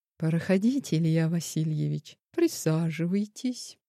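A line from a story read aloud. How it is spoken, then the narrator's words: Calm greeting. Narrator (Russian): спокойно встретил подчиненного Владислав Эдуардович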